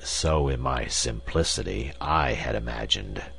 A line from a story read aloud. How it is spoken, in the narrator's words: said the professor bitterly